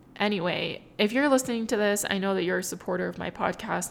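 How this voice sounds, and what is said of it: Emotional, wavering voice. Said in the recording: “I'm getting emotional again”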